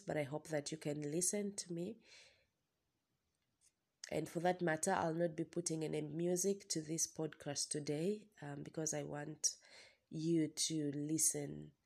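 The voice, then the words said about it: Slightly hoarse voice. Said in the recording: “my voice is a little bit hoarse ... I have a little cold”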